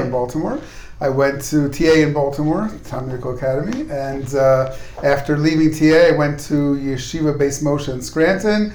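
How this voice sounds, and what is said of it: American accent. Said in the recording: “that nice American accent of yours”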